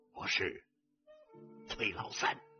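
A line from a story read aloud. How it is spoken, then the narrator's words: Hoarse, cold voice. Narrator (Chinese): 一个沙哑冷酷的声音回答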